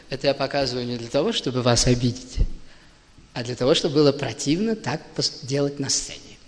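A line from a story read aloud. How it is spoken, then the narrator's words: Soft speech. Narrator (Russian): он вдруг мягко говорил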